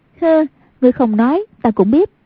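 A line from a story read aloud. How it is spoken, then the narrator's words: Graceful, smiling. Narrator (Vietnamese): Hoàng Dung duyên dáng mỉm cười nói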